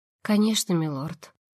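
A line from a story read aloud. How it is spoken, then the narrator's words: Breathed out. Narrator (Russian): Наконец выдохнула она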